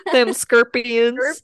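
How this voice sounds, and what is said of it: Put-on Southern accent. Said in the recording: “that more in a southern accent.”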